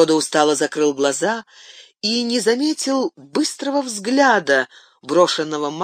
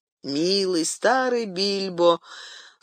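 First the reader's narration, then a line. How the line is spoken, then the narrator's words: Sleepy murmur. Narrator (Russian): сонно проговорил Фродо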